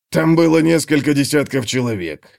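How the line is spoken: Snorting. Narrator (Russian): фыркнул Готрек

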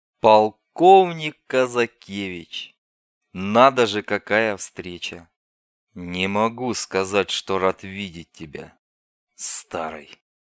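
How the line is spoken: Through gritted teeth. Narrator (Russian): процедил Казакевич сквозь зубы

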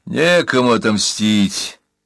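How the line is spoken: Tired voice. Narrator (Russian): усталым голосом сообщил Бурса

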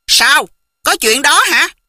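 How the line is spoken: Angry. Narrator (Vietnamese): Chu Bá Thông tức giận nói

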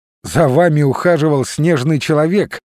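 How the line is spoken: Laughing. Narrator (Russian): рассмеялся он

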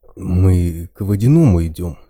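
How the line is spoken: Said uncertainly. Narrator (Russian): неуверенно произнес

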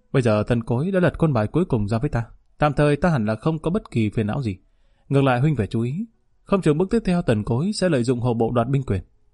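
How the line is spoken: Smiling. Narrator (Vietnamese): hắn đột nhiên mỉm cười nói

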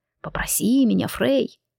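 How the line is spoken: Whispering. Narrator (Russian): Его губы нашептывали

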